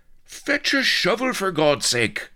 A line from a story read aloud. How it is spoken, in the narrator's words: roared Blood, his head awash